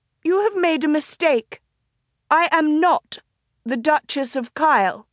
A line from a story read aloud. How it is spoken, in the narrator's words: she raised her voice and said clearly and loudly